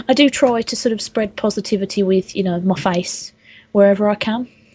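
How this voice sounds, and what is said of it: Brummie accent. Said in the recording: “I haven't really got the accent for radio ... I love a good brummie.”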